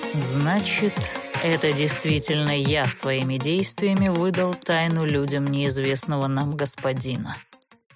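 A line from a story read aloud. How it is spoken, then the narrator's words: Serpent's gloomy pronouncement. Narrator (Russian): мрачно изрек змей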